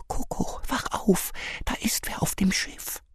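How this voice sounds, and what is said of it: Whispering. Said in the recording (German): “flüstert”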